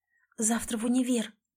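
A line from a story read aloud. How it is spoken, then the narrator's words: Whispered mutter. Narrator (Russian): бормочу шепотом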